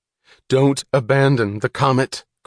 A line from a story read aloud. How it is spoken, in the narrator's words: cried Eddie Willers